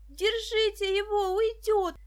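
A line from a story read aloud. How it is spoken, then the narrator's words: Yelled. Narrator (Russian): завопила Даша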